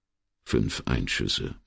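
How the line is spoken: Murmuring. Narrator (German): murmelte er

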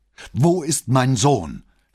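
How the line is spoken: Loud demanding male voice. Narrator (German): fragte eine Männerstimme laut und fordernd

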